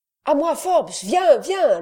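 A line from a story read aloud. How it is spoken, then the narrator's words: Shouting. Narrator (French): lui cria-t-il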